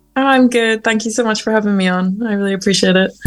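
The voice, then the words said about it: Northern Irish accent. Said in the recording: “I can tell that you are from Ireland because of your your lovely accent”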